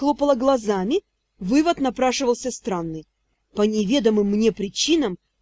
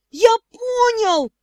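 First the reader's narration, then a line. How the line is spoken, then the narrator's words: Yelling. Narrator (Russian): завопил Шон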